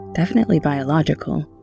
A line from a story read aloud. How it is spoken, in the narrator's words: she said